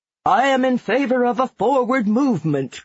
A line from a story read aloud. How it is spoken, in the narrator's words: cried one